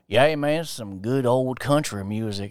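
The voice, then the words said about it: Put-on Southern accent. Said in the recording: “have a fucking accent? ... All this southern nonsense.”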